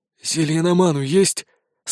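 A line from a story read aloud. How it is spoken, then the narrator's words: Hoarse question. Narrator (Russian): спросил охрипшим голосом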